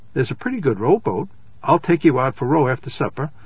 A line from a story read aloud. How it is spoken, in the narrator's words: Miles said, cheerfully and with sudden sympathy